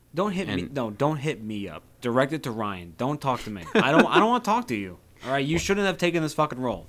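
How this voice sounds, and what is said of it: Put-on New York accent. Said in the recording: “You said that with such a New Yorker accent.”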